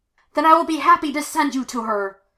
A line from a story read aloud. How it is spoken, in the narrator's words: Venge screamed